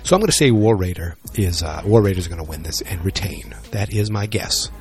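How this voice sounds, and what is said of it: Speaking quietly, hushed voice. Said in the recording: “not talking very loudly ... because I'm closed up in my bathroom while my wife is asleep”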